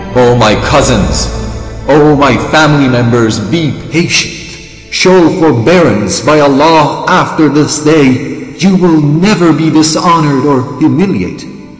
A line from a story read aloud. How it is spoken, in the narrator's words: Imam cried